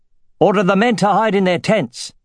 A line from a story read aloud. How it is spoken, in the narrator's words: he shouted